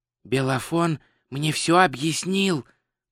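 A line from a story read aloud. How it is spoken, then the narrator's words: Whispered. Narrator (Russian): прошептал Два Цветок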